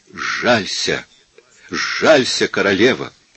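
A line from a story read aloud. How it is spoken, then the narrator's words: Hoarse stranger pleading. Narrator (Russian): проговорил незнакомец хриплым голосом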